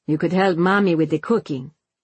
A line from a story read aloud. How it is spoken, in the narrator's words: he says coldly